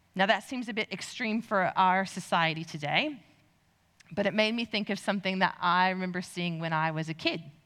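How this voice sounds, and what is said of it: American accent. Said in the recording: “I grew up in the U.S. You can probably tell by my accent.”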